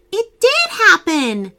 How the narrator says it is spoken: Hallie exclaimed

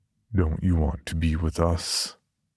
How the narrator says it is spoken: it asked in a familiar, deep voice that I knew to be Paul's

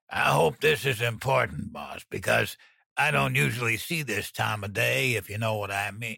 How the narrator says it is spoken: He grumbled

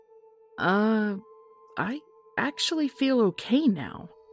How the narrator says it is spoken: I said hesitantly

